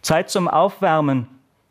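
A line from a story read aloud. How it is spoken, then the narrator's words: Bellowed across a hall. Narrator (German): brüllte der Sportlehrer durch die Halle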